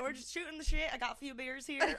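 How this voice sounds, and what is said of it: Put-on southern country accent. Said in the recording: “It sounds so country ... I can't do a southern accent.”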